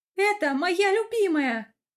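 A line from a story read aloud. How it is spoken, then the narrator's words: Yelling. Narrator (Russian): вопит она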